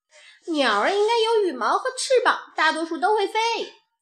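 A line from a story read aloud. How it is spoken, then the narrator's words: Quacking duck voice. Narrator (Chinese): 鸭子嘎嘎地叫着说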